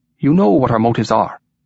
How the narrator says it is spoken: continued the other in his softly lilting voice

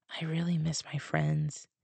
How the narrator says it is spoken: I whispered

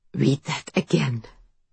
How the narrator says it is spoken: Saul whispers

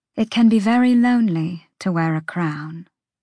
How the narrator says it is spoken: Hypaxia said quietly

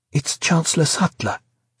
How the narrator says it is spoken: she said nervously

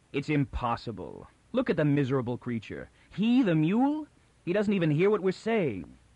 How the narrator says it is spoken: Taran said harshly and with finality

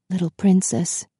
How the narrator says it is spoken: he said gently in her ear

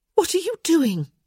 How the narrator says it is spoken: she gasped

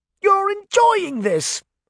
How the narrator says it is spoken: Hart shouted

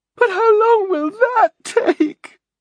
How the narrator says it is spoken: Leslie wailed

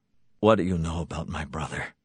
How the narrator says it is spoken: He asked thickly

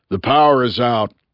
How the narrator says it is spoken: growled Bunny

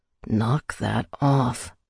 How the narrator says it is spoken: he whispered in my ear, sounding out of breath

